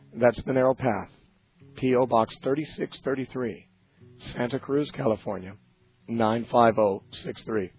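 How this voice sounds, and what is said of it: Weak voice recovering from laryngitis. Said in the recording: “I'm recovering from laryngitis. Hopefully my voice will be a little stronger tomorrow.”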